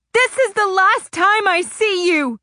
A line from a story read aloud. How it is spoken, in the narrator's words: I screeched